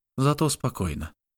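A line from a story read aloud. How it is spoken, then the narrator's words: Plain. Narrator (Russian): сказала Хасми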